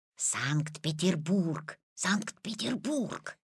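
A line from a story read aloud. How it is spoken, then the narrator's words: Old man whispering. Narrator (Russian): зашептал Петин прапрадедушка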